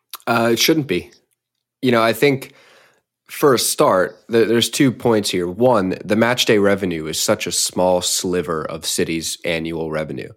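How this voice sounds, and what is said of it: American accent. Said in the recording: “you may have an American accent”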